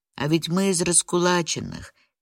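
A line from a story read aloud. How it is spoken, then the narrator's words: Quiet. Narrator (Russian): тихо добавила Шурка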